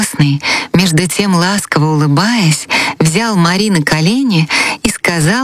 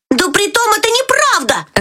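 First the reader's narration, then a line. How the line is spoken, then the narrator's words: Shouting. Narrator (Russian): закричал Фриц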